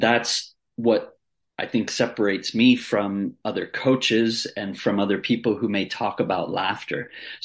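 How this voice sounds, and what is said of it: American accent. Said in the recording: “with that accent, mate, you're not from downtown Sydney... So you're obviously from the US”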